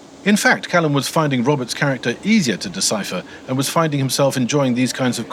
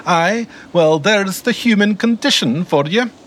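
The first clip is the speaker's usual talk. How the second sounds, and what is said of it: High-pitched Scottish accent. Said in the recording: “always delivered in a high-pitched Scottish accent.”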